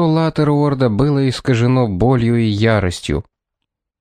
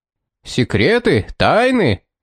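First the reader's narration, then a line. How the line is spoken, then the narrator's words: Furious male yell. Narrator (Russian): заорал Латтеруорт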